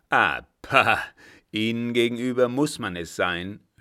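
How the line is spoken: Sneering. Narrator (German): höhnte

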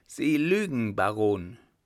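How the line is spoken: Woman calling out. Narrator (German): die Frau rief

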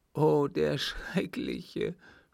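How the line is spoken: Sobbing. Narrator (German): schluchzte die Gefragte

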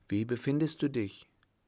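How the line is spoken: Calling out. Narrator (German): rief sie

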